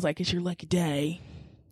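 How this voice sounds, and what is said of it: Low growling Daryl Dixon impression. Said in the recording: “my accent's terrible... Your Daryl impressions... I'm trying to get that low growl... It's like feral... you just growl all the time”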